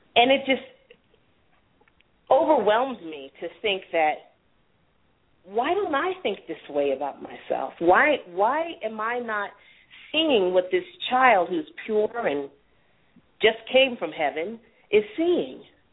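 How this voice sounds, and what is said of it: Emotional, choked-up voice. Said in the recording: “I'm a little emotional right now.”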